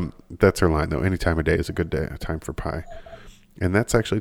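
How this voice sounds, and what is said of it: Usual voice. Nothing is said of it.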